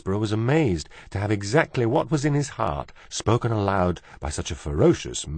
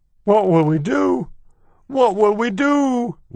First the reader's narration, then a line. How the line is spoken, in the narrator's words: wailed Cook